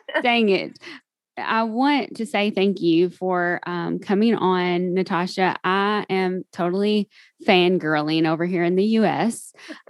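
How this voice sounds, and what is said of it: Southern US country accent. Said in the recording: “I have been told that I sound kind of country, which is southern ... You don't sound kind of country, you do sound country.”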